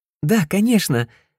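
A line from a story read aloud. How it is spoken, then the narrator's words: Cheerful. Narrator (Russian): радостно кивнула Чи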